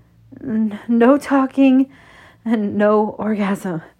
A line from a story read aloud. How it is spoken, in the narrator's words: I gasp as a shudder racks through my body